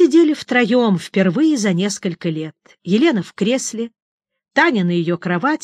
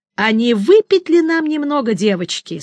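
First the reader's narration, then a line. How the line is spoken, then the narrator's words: Cheerful, then breaking off. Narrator (Russian): спросил он бодро, но тут же и осекся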